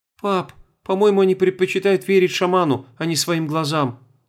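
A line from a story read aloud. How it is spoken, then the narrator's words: Sad sigh. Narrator (Russian): грустно вздохнула Света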